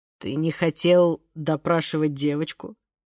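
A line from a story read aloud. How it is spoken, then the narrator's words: Even-voiced question. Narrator (Russian): Ровным голосом поинтересовался Кирилл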